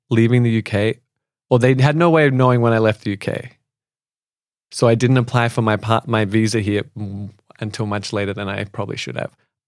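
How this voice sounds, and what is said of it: Australian accent. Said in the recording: “lovely accent ... from the far north coast of New South Wales ... Australia”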